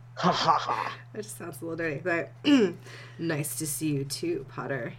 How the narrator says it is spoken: he growled

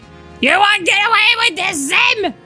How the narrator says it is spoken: Dib screamed

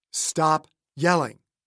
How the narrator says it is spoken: Magnus said

